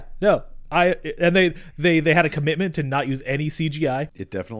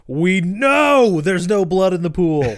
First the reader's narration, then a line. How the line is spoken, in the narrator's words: everybody on the track screams